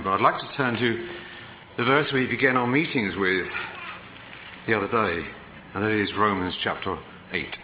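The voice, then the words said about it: Speaks with a noticeable accent. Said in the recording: “I trust you won't be distracted by my accent.”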